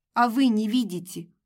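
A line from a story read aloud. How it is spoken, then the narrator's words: Snapping. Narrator (Russian): огрызнулась я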